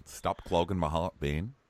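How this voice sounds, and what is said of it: Put-on Australian Real Housewives voice. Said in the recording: “I'm talking in that stupid voice because Real Housewives of Melbourne is back”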